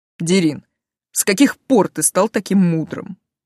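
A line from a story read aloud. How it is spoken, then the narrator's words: Snorted. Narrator (Russian): хмыкнул Тейт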